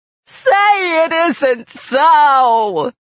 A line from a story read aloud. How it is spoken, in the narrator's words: Mercy wailed all the louder